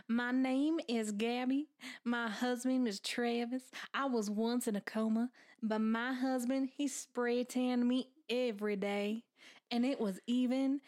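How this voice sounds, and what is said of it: Put-on Southern American accent. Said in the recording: “This is my southern accent.”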